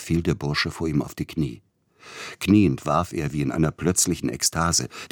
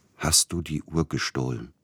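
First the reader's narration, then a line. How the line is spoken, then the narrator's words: Quiet question. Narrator (German): fragte er leise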